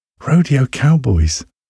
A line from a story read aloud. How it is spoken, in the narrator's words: she said, her voice full of excitement